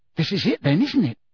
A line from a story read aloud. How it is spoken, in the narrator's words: said Ron excitedly